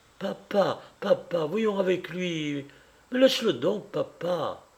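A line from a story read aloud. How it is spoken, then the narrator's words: Sudden boy's cry. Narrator (French): s'écria tout à coup le gamin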